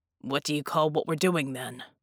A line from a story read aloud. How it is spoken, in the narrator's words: Jack grunted